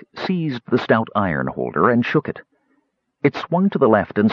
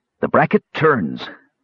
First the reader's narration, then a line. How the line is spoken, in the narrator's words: said Bren